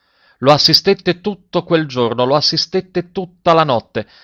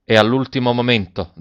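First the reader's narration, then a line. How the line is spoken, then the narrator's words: Plain. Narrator (Italian): disse il medico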